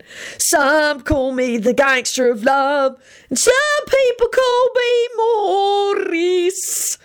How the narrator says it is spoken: he hollered

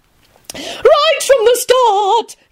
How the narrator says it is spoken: Caroline continued happily

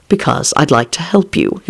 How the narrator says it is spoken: he replied calmly

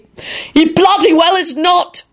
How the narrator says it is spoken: shouted the boyish Lupin

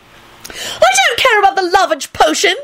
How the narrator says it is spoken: she wailed

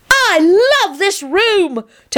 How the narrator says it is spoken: Teddy shouted as he raced around

